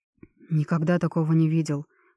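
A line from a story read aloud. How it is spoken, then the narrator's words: Shocked breathless. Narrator (Russian): потрясенно выдохнул Джереми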